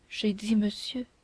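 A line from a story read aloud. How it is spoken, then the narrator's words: Low murmur. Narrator (French): murmura Milady, en baissant la voix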